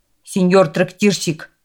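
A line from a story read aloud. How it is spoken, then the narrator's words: Shouted. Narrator (Russian): крикнул он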